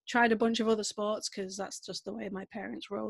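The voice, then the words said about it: Northern English Manchester accent. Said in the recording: “maybe you can tell from my accent a little bit, I'm from the UK. I'm from a little place called Manchester”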